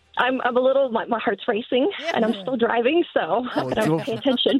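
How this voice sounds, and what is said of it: Excited, slightly choked-up voice. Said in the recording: “Are you getting choked up? You sound so excited.”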